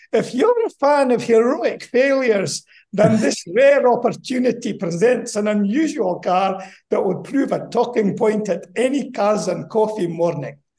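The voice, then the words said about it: Put-on Scottish accent. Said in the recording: “you're going to have to put up my Scottish accent ... That's pretty good. That's better than your Indian accent. ... That was pure Scott with just a tang of Bangladesh on the back end.”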